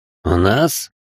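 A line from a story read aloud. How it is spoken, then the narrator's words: Ironic snort, man. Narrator (Russian): иронично хмыкнул мужчина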